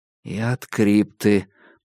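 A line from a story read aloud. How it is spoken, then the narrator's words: Muttering. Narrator (Russian): пробормотал я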